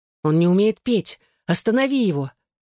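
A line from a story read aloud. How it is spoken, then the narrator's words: Desperate pleading. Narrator (Russian): в отчаянии взмолилась она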